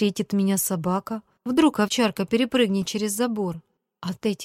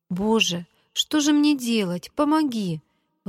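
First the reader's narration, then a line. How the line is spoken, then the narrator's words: Girl pleading. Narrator (Russian): взмолилась девочка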